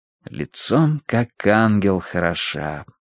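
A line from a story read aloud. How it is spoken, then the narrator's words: Muttered. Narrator (Russian): пробормотал я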